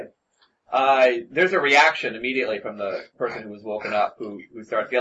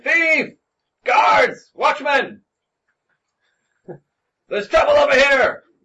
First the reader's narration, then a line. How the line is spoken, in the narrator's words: He starts shouting